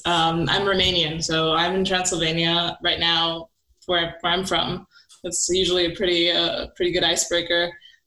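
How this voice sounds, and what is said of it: Near-American accent, slightly off. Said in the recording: “you actually have like a very close to what sounds like an American accent ... just fake enough to tell you that it's not quite there ... the uncanny valley of, of weird accents”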